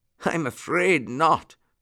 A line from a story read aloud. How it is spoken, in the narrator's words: laughed Uncle Wiggily